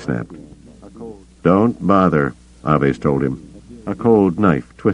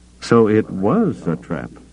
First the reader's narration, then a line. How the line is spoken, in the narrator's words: Gillespie said, his voice icy calm